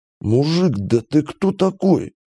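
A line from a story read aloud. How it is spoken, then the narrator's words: Wheezing. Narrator (Russian): просипел капитан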